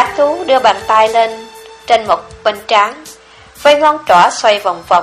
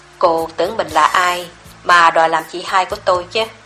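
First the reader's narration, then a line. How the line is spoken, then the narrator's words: Soft contemptuous snort. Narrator (Vietnamese): Hắn hừ khẽ một tiếng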